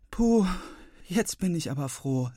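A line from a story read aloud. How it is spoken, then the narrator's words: Sighing. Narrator (German): seufzt sie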